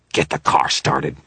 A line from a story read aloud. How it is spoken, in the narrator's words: Victor snarled